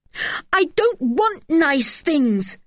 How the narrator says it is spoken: cried poor George

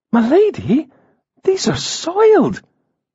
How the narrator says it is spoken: Galindria exclaimed

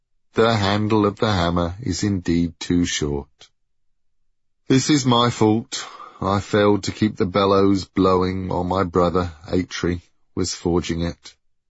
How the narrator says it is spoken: concluded Brock sadly

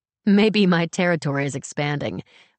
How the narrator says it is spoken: I say with a laugh

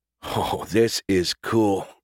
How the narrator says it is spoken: Bruno whispered, a huge smile splitting his face

